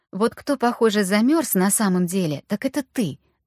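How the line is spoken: Exclaiming. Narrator (Russian): воскликнула Аня

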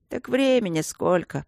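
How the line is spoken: Sleepy. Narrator (Russian): сонно сказал кто-то

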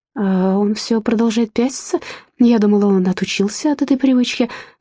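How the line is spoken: Sad, smiling. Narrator (Russian): сказала Ширли, грустно улыбнувшись

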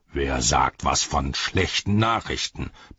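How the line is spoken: Soldier bellowing. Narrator (German): brüllte der Soldat

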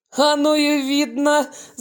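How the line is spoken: Booming laugh. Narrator (Russian): зычно расхохотался Брагинский

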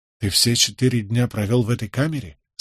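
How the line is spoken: Plain. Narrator (Russian): спросил я

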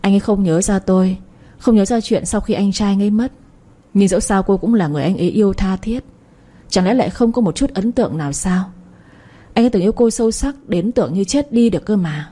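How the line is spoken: Sigh, sad smile. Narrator (Vietnamese): Thư ký Hà bỗng thở dài một tiếng rồi cười buồn

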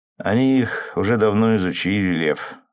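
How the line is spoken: Lazy yawning reply. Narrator (Russian): отозвался, лениво позевывая

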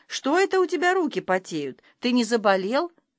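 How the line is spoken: Caring teacherly question. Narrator (Russian): спрашивает заботливым воспитательским голосом

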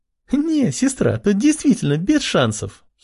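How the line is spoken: Giggling. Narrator (Russian): хихикала Ама

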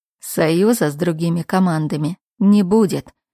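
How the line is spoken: Sudden scoffing snort. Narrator (Russian): неожиданно хмыкнул парень

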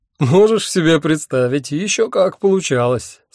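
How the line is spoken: Speaking through laughter. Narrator (Russian): сквозь смех выговорил я

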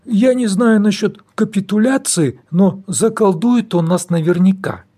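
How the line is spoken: Sad pessimistic mutter. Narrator (Russian): печально пробормотал пессимист друг

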